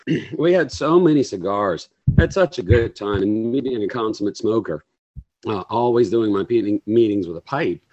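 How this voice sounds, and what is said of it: Hoarse, sick-sounding voice. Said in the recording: “I'm still recovering from it, as you can hear from my voice... I ended up with an upper respiratory infection.”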